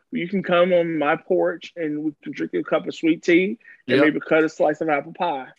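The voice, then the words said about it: Fake Southern country accent. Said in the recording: “That's my country, my fake country accent.”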